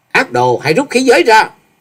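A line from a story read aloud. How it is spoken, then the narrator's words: Loud shout. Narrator (Vietnamese): Chàng quát to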